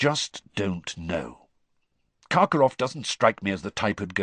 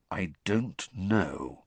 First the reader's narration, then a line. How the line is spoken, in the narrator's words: said Sirius slowly